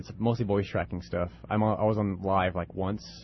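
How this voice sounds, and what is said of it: Deep radio voice. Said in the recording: “you got a good voice. You got that deep radio voice.”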